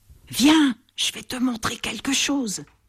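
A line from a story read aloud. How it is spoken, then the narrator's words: Whispered. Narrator (French): chuchote Bat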